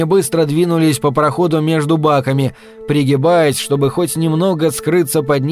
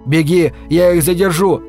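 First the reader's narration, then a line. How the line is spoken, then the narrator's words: Shouted. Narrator (Russian): крикнул он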